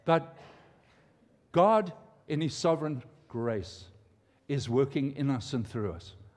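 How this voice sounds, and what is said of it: Non-American foreign accent. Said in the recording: “they heard my accent, right? Y'all, I'm trying to get some Americanese.”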